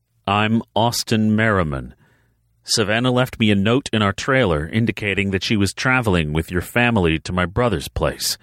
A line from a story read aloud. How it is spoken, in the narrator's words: he said evenly, fighting to remain calm when he knew his daughter was so close